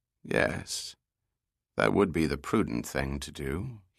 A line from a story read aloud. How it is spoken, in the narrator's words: said quietly